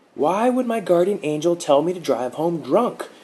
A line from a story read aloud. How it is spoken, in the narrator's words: Mark yelled, saliva flinging from his lips